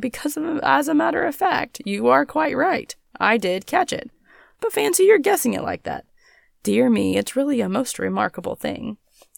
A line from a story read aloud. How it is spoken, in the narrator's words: answered the stolid stranger, laughing